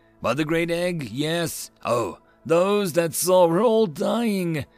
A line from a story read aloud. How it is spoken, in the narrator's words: Kik-Tik wailed at the communicator